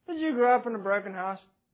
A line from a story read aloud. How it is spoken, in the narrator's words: Maria asked him dryly and seemingly with little compassion